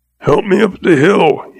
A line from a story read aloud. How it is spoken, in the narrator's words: he choked